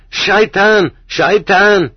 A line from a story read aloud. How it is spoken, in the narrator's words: screeches